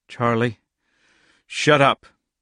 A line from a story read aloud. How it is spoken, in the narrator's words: said roughly